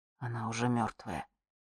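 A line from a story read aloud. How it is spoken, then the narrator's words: Quiet. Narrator (Russian): тихо сказал он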